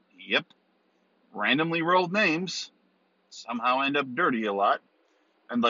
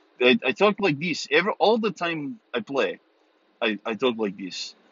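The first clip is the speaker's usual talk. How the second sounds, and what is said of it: Put-on Russian accent. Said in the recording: “I got to talk with a Russian accent the entire time”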